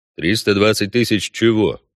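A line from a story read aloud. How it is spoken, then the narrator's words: Even, level question. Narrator (Russian): уточнил ведьмак ровным голосом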